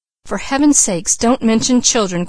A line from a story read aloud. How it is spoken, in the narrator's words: cried Mrs